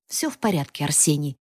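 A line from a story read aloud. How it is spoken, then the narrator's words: Snorting. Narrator (Russian): хмыкнул Михаил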